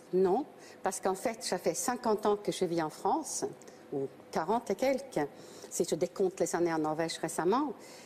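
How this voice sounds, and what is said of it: Foreign accent speaking French. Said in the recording (French): “votre double nationalité, et même que votre accent ... ça a même créé la polémique ... mon accent”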